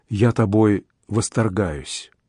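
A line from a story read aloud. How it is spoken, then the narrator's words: Soft whisper. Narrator (Russian): тихо шепнул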